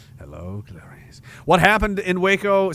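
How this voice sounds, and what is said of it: Bad Hannibal Lecter impression. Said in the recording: “I kind of like doing a bad, you know, Dr. Lecter.”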